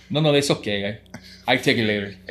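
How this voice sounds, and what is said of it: Put-on Spanish-speaker accent. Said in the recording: “I'm going to say it in an accent for people that don't speak Spanish”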